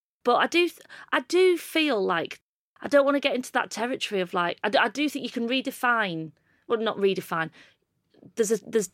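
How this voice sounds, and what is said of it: Northern English accent. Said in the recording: “I've got this accent that I'm sort of grew up in a Billy Elliot-style terraced house with an outside toilet”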